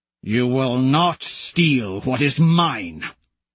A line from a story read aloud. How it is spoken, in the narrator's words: I growl